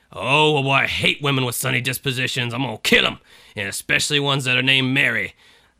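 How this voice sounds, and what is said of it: Bad Mr. T and Yosemite Sam impression. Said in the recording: “Mr. T? ... That was a combination of Mr. T and like bad Yosemite Sam. This is bad impersonation hour”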